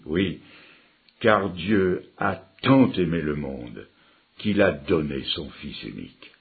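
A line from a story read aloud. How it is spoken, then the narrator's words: Grave voice. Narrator (French): d'une voix grave a dit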